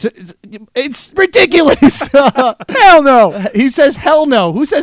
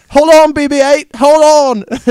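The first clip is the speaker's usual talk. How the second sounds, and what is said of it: Put-on English accent. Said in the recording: “in an English accent or whatever”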